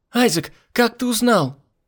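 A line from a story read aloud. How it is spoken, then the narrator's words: Shout. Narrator (Russian): выкрикнул Адерхан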